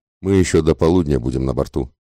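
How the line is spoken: Calm, composed gentleman. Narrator (Russian): спокойно ответил невозмутимый джентльмен

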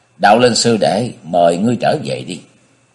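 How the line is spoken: Cold after laughing. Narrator (Vietnamese): Đạo diễn cười mấy tiếng rồi ... lạnh lùng nói

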